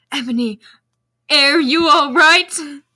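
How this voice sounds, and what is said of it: Worried character voice as Draco. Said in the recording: “Asked Draco in a worried voice. I have to do it in a worried voice.”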